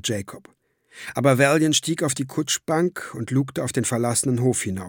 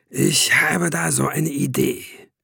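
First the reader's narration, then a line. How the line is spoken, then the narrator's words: Growling. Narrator (German): knurrte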